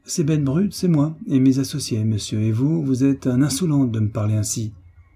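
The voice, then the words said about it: Thick garbled Auvergnat accent. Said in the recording (French): “avec un accent charabia qui empestait son auvergnat d'une lieue”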